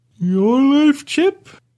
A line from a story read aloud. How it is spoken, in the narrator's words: I asked, rubbing my eyes as I yawned